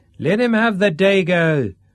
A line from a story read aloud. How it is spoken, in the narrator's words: shouted the gentleman on the hotel roof